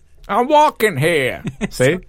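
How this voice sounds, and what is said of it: Put-on New York accent. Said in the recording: “I did a great accent... It's even better now... There's some subtleties to it now. So I can do it by region. That was Harlem.”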